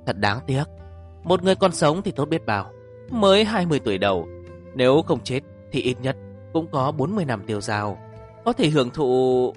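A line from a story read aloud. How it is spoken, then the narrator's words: Sighing. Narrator (Vietnamese): Bạch Sầu Phi thở dài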